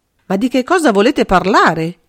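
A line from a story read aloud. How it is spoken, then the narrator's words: Bewildered involuntary exclamation. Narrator (Italian): esclamò suo malgrado Bonard, comprendendo sempre meno le elucubrazioni fantastiche del suo ospite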